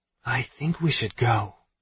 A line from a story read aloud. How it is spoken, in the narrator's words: she whispers into my ear